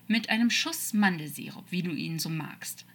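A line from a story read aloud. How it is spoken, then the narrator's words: Calm, casual. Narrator (German): sagte Metatron ruhig, als würden sie gerade gemütlich in einem Café sitzen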